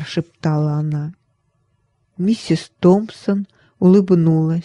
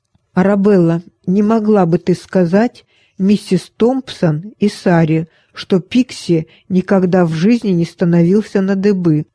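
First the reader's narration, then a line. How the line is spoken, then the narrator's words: Father, very stern. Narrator (Russian): Папа очень строго сказал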